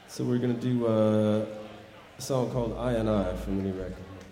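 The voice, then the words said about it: Compromised, slightly unwell-sounding voice. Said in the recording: “my voice is a little compromised. I've been a little under the weather”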